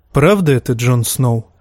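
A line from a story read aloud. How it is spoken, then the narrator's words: Soft question. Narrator (Russian): мягко спросил Манс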